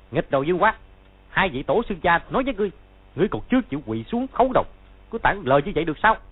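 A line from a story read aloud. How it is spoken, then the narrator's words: Loud shout. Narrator (Vietnamese): Hắn quát to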